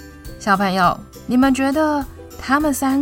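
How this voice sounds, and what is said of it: Usual voice. Nothing is said of it.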